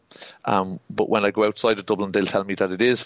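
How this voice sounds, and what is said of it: Dublin Irish accent. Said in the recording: “my accent isn't very strong Dublin”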